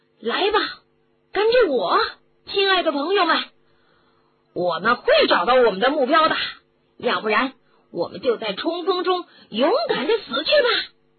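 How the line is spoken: Loud shout, anger gone. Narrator (Chinese): 骑士的怒气似乎立即无影无踪了 大叫着

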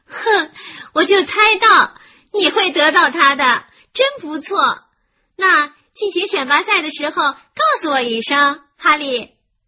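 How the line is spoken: Loud. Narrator (Chinese): 凯蒂大声地对他说

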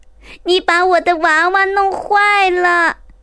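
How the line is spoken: Shrieked. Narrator (Chinese): 娜娜尖叫

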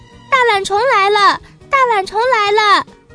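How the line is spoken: Shouting together. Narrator (Chinese): 他们一起叫起来

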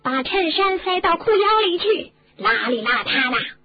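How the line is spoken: Sudden loud shout. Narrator (Chinese): 那个镜子突然大叫起来

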